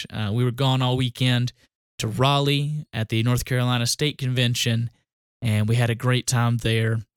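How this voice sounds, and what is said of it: Southern US country accent. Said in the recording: “my country accent comes out too much”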